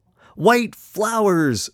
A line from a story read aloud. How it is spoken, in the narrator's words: screamed the happy clown, and all the rest joined in